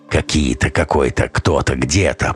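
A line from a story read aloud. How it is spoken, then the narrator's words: Grumbled. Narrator (Russian): проворчал Луза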